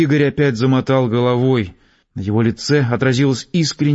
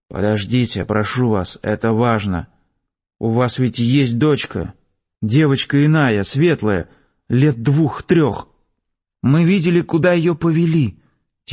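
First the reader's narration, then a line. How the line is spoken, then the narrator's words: Small child, quiet. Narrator (Russian): тихонько сказал маленький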